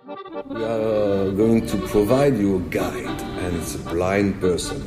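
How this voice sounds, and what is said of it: French accent. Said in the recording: “French accent”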